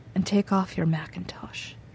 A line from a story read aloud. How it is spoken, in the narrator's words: he said softly